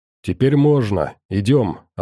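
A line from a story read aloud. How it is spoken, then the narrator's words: Plain. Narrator (Russian): ответил он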